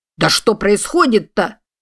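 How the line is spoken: Shouting. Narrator (Russian): закричал светловолосый капрал

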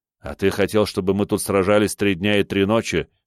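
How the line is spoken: Smirking snort. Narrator (Russian): хмыкнул

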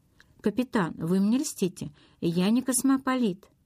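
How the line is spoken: Laughing. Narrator (Russian): Он расхохотался

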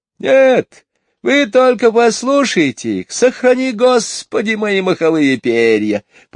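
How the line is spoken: Bird whistling outside window. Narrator (Russian): просвистел за окном скворец

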